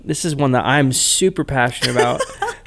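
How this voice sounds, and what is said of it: Sarcastic delivery. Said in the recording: “If you can't tell by my voice, I'm being a little sarcastic”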